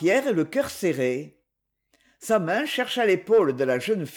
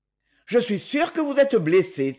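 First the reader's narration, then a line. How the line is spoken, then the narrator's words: Exclaiming. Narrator (French): s'écria-t-il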